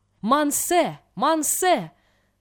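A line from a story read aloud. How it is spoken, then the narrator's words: Shouting peasant. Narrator (Russian): закричал крестьянин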